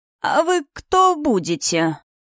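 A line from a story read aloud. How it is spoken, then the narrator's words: Creaky voice. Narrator (Russian): проскрипел кто-то за спиной у Астора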